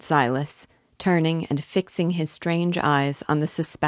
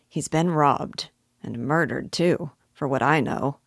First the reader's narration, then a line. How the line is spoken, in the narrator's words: he added, in a muttering tone